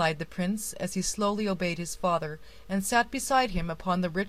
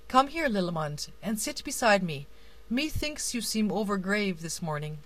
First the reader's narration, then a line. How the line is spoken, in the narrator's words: the king continued kindly